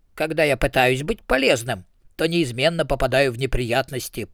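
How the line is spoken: Grumbled. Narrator (Russian): пробурчал Ринсвинд

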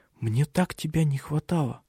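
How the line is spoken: Tender whisper. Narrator (Russian): Она все шептала нежные слова

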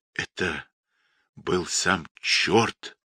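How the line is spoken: Dying hoarse rasp. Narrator (Russian): прохрипел Гржебин, обливаясь кровью

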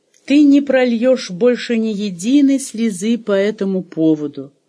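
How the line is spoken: Loud commanding tone. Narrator (Russian): громко распорядился он

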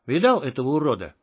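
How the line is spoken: Whispered close in ear. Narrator (Russian): прошептал у него над ухом Феникс

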